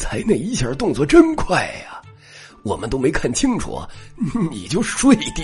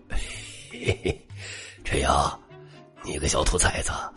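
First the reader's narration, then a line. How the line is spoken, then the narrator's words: Chuckling. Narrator (Chinese): 老夏嘿嘿一笑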